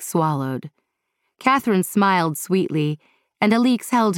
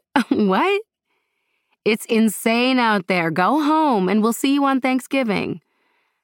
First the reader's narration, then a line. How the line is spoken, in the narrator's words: Amira laughed and said